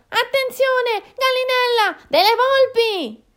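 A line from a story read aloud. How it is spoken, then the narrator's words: Alarmed shout. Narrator (Italian): il Tasso gridò allarmato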